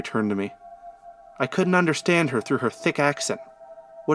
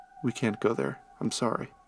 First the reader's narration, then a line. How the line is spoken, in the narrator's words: She mumbled